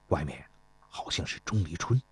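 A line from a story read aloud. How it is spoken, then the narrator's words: Whispered. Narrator (Chinese): 田忌悄声地说道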